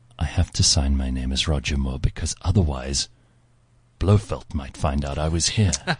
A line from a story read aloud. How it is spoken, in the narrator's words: in a hushed voice said to me